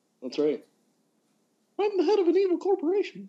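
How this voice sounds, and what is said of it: Cartoon mouse character voice. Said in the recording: “my impression of Mickey Mouse”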